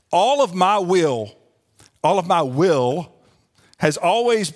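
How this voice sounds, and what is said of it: Southern twang, drawn-out words. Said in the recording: “a little bit of my southern twang coming out ... kind of draw that out”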